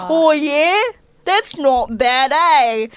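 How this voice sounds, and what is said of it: Deliberately bad Australian accent. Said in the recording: “that's my terrible Australian accent... I'm just mocking Australia at this point”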